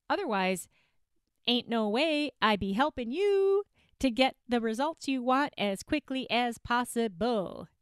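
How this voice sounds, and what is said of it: Made-up, vaguely Southern-style accent. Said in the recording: “That really didn't sound like a Southern accent, though, did it? It was just kind of all, that was my weird ass accent that I just make up sometimes”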